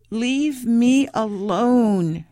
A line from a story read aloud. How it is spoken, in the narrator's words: she groaned